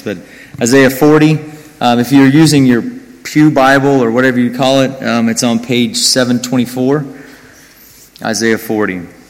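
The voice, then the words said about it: Speaks with a noticeable accent. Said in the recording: “I have an accent”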